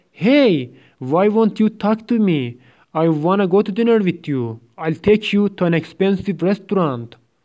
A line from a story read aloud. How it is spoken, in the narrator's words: He yells